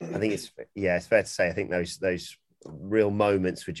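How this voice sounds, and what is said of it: Usual voice. Nothing is said of it.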